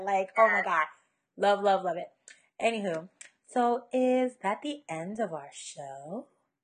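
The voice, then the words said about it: Hoarse voice from laryngitis. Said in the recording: “with this laryngitis, I can't get to that. I can't get to that note.”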